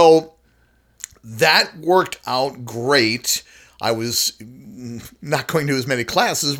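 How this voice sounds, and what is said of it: Usual voice. Nothing is said of it.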